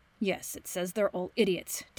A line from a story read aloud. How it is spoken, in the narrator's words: Danny mutters